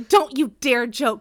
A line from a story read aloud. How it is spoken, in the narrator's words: Robert snapped